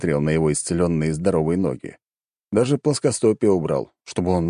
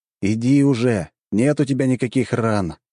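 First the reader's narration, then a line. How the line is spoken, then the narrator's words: Sighing. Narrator (Russian): вздохнул я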